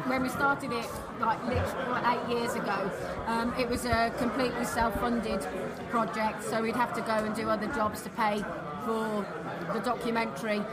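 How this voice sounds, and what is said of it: British accent. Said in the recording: “come over from the UK, hence the accent”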